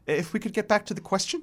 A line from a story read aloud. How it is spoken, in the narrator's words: says nervously